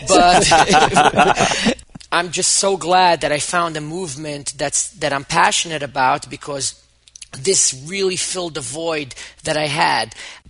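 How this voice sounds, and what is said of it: Yiddish-influenced English accent. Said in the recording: “English is my third language. I spoke Hebrew and then I spoke Yiddish. And many people ask me, what's your accent? ... I don't speak properly because I started speaking English much later in life. I guess it's Yiddish and it's like Jackie Mason meets Joe Pesci or something.”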